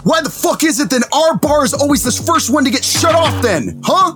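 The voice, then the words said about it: Loud, angry shouting. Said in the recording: “You're going to have to lower your voice”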